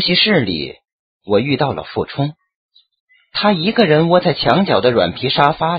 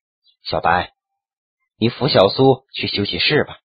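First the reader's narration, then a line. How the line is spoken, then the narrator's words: Sighing. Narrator (Chinese): 张之谦叹了口气，道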